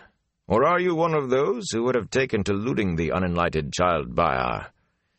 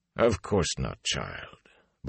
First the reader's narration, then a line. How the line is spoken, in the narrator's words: Bornhold said sadly